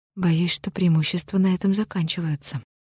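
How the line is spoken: Sigh. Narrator (Russian): вздохнула Грей

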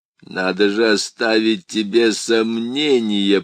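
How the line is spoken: Demonic growl. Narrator (Russian): прорычал бес

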